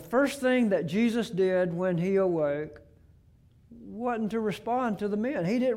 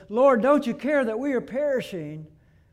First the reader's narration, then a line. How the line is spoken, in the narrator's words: The disciples cried out to Jesus, says